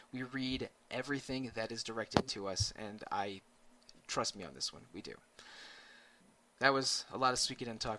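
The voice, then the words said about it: Strained, tiring voice. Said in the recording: “I'm starting to lose my voice.”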